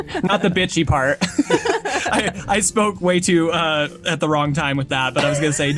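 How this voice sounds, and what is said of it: Usual voice. Nothing is said of it.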